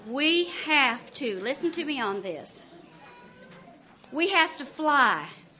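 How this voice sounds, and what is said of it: Slow southern drawl. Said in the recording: “that was said in a real southern drawl.”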